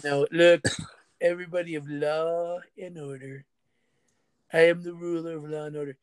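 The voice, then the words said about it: Donald Trump impression. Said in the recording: “my Trump impersonation.”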